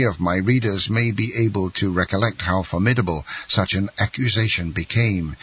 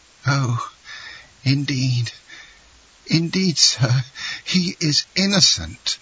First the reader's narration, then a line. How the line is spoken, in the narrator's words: sobbed forth Mercedes